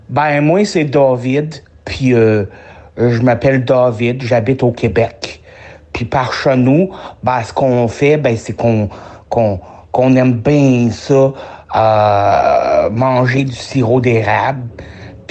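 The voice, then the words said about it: Put-on Québécois French accent. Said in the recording (French): “je vais essayer de, te faire mon accent québécois”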